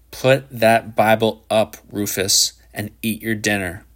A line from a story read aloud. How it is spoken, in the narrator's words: Shepard said in a low, furious voice